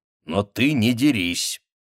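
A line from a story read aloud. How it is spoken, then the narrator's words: Coldly triumphant. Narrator (Russian): Данди говорил холодно торжествующе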